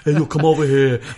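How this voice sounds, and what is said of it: Bad put-on New York accent. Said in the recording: “That's my New York accent. ... Well, it's a terrible New York accent.”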